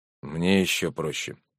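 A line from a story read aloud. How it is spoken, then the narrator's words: Quiet. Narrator (Russian): тихо сказал Сергей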